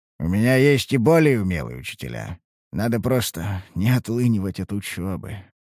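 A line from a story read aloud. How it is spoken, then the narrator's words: Sigh. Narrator (Russian): вздохнул я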